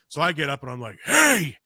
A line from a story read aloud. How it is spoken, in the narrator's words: I yell down at it